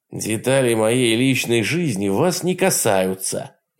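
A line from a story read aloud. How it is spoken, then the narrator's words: Rude curt retort. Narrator (Russian): грубо отрезал Ольсен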